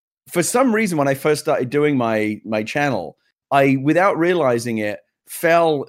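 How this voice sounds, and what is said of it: Usual voice. Nothing is said of it.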